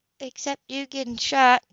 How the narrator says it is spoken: Jody replied warmly

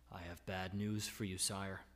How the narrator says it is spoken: the servant reported quietly

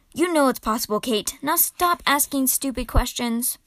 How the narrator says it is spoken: Constance, who now felt very ill indeed and irritably

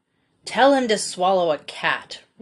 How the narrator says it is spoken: roared the poor doctor

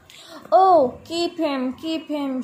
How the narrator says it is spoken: shouted the 3 younger children

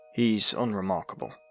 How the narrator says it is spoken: said

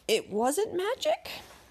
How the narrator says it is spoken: he asked timidly

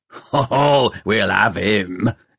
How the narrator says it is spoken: growled Peavy

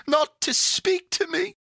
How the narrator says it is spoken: said Pandora, sobbing anew

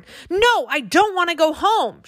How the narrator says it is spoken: she screamed in a high little voice

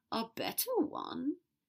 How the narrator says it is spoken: Draco said weakly

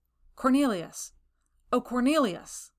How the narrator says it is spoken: He called out in a strong voice

